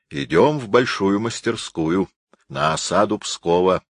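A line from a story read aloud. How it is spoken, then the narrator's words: Solemn announcement. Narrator (Russian): торжественно объявил Карл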